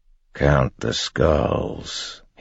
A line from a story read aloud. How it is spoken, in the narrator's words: he said quietly